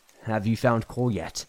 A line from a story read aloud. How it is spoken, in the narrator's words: Trina asks